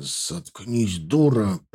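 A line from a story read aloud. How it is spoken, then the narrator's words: Hissed. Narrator (Russian): прошипел Епихин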